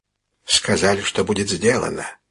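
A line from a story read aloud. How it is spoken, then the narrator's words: Whisper. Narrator (Russian): шепнул он комиссару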